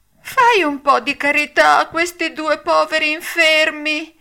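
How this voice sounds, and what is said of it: Whining, whimpering voice. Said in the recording (Italian): “con una voce di piagnisteo”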